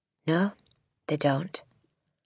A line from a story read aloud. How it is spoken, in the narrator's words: Miss Honey said rather stiffly